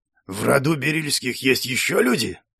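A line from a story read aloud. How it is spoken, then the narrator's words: Displeased voice. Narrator (Russian): ответил недовольным голосом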